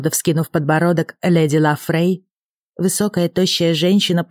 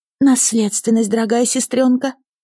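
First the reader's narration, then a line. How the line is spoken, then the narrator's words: Agitated breathless. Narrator (Russian): взволнованно выдохнула Лека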